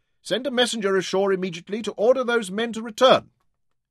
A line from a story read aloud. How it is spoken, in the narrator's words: Rahmad shouted to his boatswain